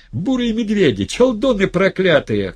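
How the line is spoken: Shouting across the street. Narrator (Russian): кричала Хавронья через улицу

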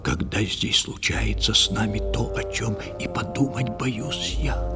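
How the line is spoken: Fisherman whispering. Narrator (Russian): рыбак прошептал

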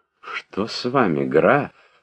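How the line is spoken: Surprised, sympathetic. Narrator (Russian): спросила удивленным и соболезнующим голосом графиня

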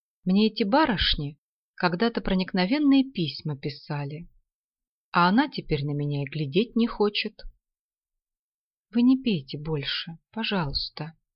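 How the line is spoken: Sad. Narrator (Russian): сказала Клара и подумала, что еще никогда в жизни ей не было так грустно, как сейчас

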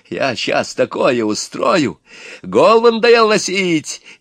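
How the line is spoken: Shouting. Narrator (Russian): Иван кричал на Горыныча

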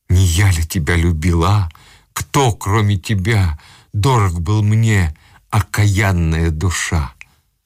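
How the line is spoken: Agitated, rapid, through teeth. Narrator (Russian): Он обливался потом от возбуждения, с хороговоркой сквозь зубы говорил

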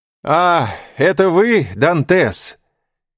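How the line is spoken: Shouting from boat. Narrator (Russian): крикнул человек в лодке

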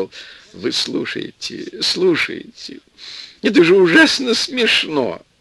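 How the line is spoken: Old man whispering after laughter. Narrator (Russian): Старичок хохотал, отсмеялся и зашептал

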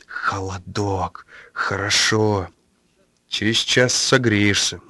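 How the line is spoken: Gloomy mutter. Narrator (Russian): мрачно буркнул сосед

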